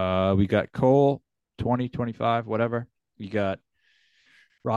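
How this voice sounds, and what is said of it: Usual voice. Nothing is said of it.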